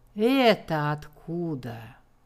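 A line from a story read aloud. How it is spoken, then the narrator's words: Menacing. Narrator (Russian): грозно приступила к ней мамаша Тенардье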